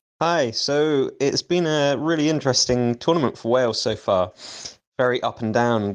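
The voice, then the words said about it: English-sounding accent. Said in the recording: “a suspiciously English-sounding accent”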